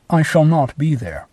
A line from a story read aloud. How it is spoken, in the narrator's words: He replies kindly but decidedly